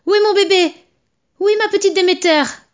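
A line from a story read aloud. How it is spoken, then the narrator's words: Desperate mother shouting. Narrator (French): cria la pauvre mère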